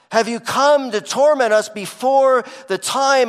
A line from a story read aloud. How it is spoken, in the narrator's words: They scream